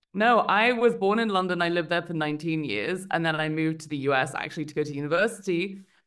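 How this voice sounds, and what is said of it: British accent. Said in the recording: “you got one of them freaking awesome British accents.”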